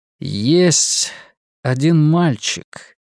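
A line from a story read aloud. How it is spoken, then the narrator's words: Slow. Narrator (Russian): медленно произнес Ларри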